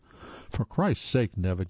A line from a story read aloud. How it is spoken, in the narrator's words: Yanis said